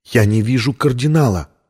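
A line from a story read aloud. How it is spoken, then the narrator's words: Whisper. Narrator (Russian): прошептала Виктория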